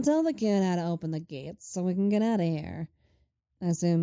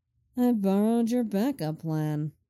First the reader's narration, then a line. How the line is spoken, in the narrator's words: Lenny drawls